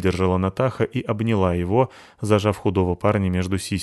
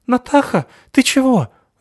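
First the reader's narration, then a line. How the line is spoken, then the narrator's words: Choked squeak. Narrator (Russian): задушенно пищал он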